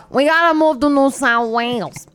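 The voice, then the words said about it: Put-on New Jersey accent. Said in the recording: “why'd I give her a Jersey accent? ... this is my Australian accent.”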